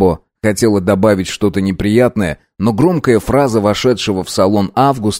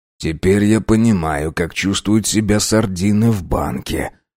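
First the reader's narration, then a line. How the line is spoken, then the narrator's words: Muttering tall man. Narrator (Russian): пробормотал длинный пятый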